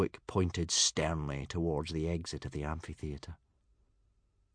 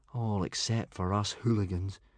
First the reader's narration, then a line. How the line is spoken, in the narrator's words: said Hiccup gloomily